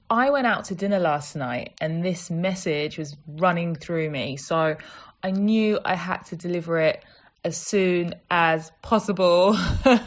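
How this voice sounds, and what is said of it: Croaky, just-woke-up voice. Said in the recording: “excuse my voice, it's kind of croaky because I've got to be honest, I've not long got up”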